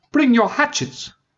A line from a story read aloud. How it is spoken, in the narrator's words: cried